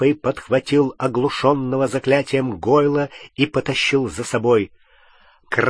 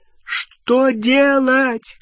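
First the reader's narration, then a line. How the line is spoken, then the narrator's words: Shout over roaring flames. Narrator (Russian): крикнула Гермиона через гудение пламени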